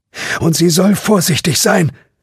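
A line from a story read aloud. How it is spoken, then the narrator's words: Called out. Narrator (German): rief noch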